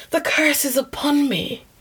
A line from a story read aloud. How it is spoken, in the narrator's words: cried the Lady of Shalott